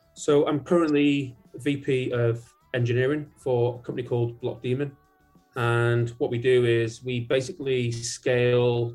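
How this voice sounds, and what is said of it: Mixed English accent with Manchester roots. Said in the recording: “your accent. Where's your accent from? ... originally from Manchester, but I've lived in so many different places. I think I'm a blend of the world”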